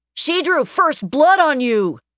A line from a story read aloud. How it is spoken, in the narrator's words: Someone shouted from the crowd